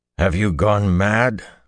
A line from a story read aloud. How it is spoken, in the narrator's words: Perrin growled